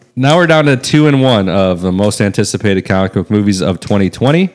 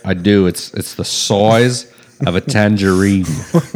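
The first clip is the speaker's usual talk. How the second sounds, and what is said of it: Put-on Australian accent. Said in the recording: “That's how you do an Australian accent.”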